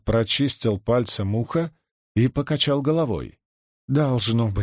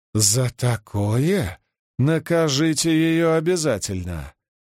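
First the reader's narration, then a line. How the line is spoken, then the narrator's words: Angry drawl. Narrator (Russian): Сердито протянула она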